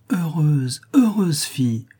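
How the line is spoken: Exclaiming after speechlessness. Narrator (French): s'écria Marie aussitôt qu'elle put parler

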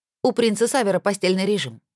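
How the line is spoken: Snorting maid. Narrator (Russian): фыркнула служанка

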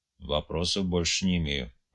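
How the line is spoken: Mutter. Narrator (Russian): пробормотал Ильяс

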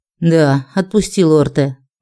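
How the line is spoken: Sighing. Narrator (Russian): вздохнул Кристофер

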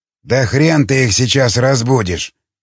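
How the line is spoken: Grumbling. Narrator (Russian): проворчал Виктор

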